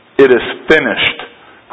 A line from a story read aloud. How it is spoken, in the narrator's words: cries the conqueror